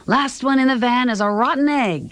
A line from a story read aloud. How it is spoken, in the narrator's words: he yelled